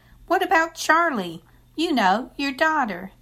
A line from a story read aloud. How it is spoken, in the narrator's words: Bertha kept shaking her head, and her face got redder by the minute, and then she hollered